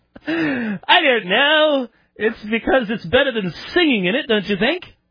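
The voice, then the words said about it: Put-on British accent. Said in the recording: “I'm not British. So why are you talking in an accent?”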